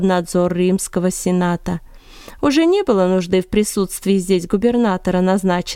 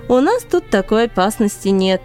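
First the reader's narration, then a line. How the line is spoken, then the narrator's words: Laughing. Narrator (Russian): рассмеялся Кала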